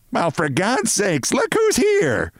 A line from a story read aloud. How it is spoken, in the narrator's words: bawled Mrs